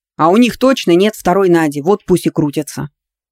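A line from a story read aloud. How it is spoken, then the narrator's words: Growled. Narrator (Russian): рыкнул Дарсон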